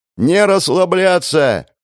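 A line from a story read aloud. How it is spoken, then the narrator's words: Shouting. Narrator (Russian): крикнул я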